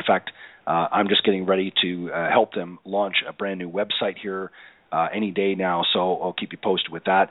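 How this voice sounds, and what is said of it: Unsteady voice, cutting in and out. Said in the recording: “my voice coming in and out here a little bit ... struggling a little bit here with a cold”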